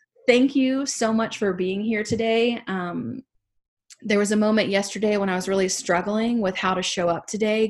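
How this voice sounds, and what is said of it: Southern accent. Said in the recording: “I know I have a Southern accent and sometimes it's hard to understand what I'm saying over here”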